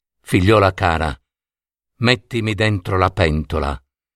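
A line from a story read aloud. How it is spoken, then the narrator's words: Sighing. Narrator (Italian): sospirò Jelina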